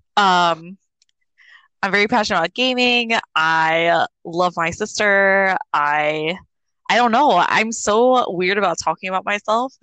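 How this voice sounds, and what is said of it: Slight New Jersey accent. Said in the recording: “from Jersey. People probably like know that from the little accent that I have ... I have a little bit of an accent.”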